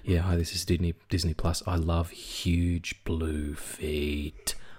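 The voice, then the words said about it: Put-on sexy voice. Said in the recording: “doing a sexy voice”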